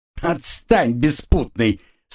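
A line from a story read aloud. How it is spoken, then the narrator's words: Laughing woman. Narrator (Russian): Смеялась женщина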